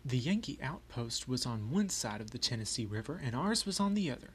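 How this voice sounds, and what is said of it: Put-on Southern American accent. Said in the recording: “I will read in my best Southern accent ... the accent I use is not really natural ... cracks in my accent”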